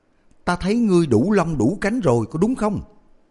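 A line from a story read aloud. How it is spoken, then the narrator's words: Suddenly raised voice. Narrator (Vietnamese): Tống Khôi bất ngờ nâng cao giọng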